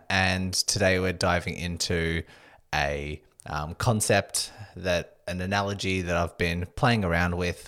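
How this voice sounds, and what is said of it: Slightly husky voice. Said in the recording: “my voice is a little bit husky than usual”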